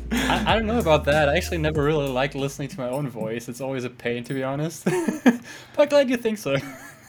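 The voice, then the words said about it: German-English mixed accent. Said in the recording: “you have a pretty good accent, you know, kind of the German mixed with the English”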